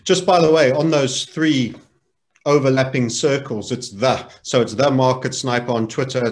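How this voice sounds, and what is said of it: South African accent. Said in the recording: “you've got a South African accent”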